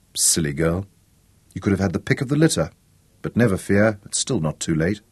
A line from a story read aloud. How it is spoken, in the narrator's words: He murmured